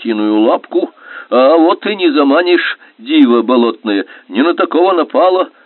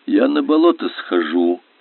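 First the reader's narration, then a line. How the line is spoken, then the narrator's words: Quiet warning. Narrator (Russian): тихонько предупредил ее Пелка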